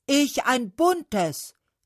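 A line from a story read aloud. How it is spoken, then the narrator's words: Maple calls out. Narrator (German): rief der Ahorn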